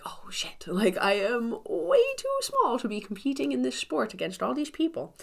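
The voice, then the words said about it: Funny put-on accent. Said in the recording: “I had to say that with a funny accent.”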